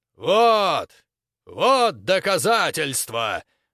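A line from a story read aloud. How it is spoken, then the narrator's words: Loud commentary. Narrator (Russian): громко комментировал Грок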